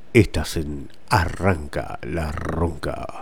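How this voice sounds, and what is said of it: Hoarse, deep radio-announcer voice. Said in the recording (Spanish): “Escuche esta voz apestada, cómo me sale voz de locutor.”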